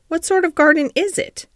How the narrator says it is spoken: Colin persisted eagerly

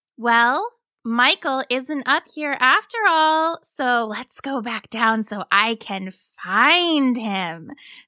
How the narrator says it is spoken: chirped happily

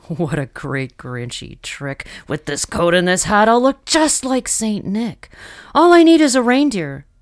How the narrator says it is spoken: he chuckled and clucked

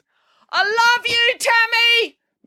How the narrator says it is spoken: Mum yelled loudly so everyone in the playground and the supermarket car park across the street could hear

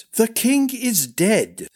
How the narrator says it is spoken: said Darren impatiently

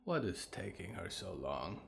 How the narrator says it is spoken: Winona muttered

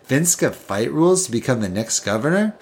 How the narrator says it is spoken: Pedro chuckled to himself

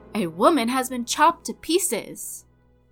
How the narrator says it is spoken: a man shouting

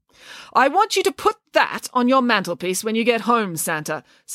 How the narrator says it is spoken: said Nanny Piggins sternly

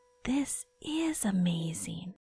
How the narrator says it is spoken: she whispered

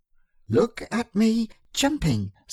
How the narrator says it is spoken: squeaked Roo

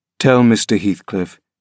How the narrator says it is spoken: he answered calmly

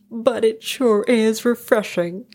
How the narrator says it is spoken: chuckled one

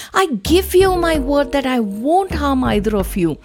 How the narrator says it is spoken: pleaded

